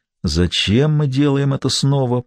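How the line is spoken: Whisper. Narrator (Russian): прошептал мсье Белево

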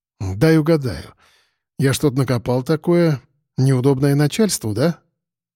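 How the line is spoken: Frank and open. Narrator (Russian): честно и открыто проговорила

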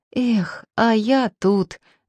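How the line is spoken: Exclamation then whisper. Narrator (Russian): забыв о конспирации, воскликнул, но спохватился и зашептал

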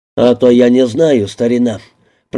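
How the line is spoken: Low booming rumble. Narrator (Russian): прогудел Палаццо

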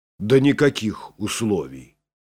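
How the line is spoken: Calm reply. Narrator (Russian): спокойно ответил Бюргер

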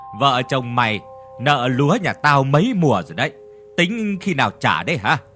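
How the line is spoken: Harsh, menacing voice. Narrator (Vietnamese): Ông hội đồng gằn giọng rồi nói

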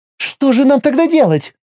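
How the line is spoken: Exclaimed. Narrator (Russian): воскликнула Миром

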